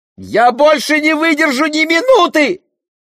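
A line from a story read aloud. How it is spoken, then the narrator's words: Shrill female scream. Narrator (Russian): раздался пронзительный женский крик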